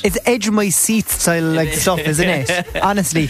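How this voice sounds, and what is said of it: Cork accent. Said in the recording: “sarcastic in a Cork accent”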